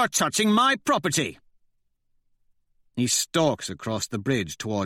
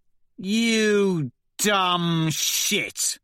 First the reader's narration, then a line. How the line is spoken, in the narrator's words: Severo sneers